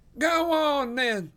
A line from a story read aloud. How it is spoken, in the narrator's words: yelled the voice